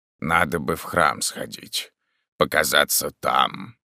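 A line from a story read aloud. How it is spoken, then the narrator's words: Grumbling. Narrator (Russian): проворчал он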